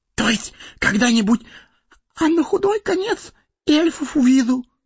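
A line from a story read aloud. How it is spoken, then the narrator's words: Whispered addition. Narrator (Russian): добавил шепотом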